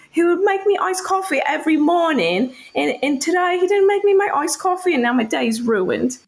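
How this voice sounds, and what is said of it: Put-on Love Island British accent. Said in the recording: “British accent ... I have Love Island British accent down, but definitely not, you know, regular British”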